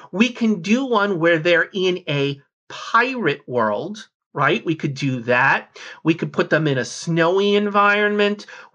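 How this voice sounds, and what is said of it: Enthusiastic, excited speaking voice. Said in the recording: “I don't know if you can hear the enthusiasm in my voice here”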